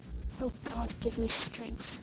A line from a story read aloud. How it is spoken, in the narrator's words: she whispered